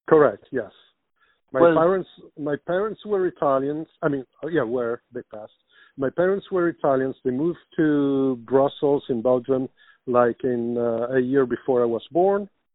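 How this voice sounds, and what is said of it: Italian accent in English. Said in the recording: “today I have an Italian accent and not a French one”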